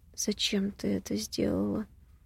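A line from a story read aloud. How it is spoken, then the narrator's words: Hollow muffled question. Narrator (Russian): когда у меня глаза начали слипаться, глухо спросил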